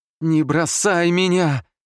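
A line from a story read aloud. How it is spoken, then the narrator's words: Sobbing woman. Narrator (Russian): рыдала охотница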